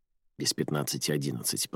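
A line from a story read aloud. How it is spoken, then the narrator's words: Whispered reply. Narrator (Russian): прошептала в ответ Моника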